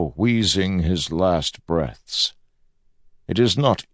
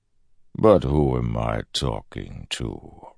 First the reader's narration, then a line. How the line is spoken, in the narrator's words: Ruin said with a sigh